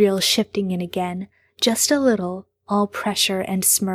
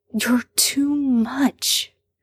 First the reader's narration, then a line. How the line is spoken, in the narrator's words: Sam hisses